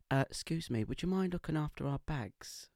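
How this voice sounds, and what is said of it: Put-on Essex accent. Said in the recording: “I'll try and do my best Essex accent, but I might muck it up”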